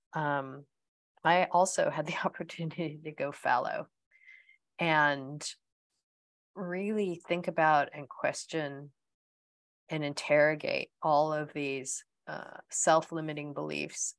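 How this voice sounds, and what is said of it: American accent. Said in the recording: “you can also tell by my accent that I'm American”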